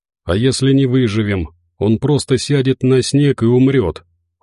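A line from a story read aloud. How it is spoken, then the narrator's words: Cold retort. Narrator (Russian): холодно парировала Марина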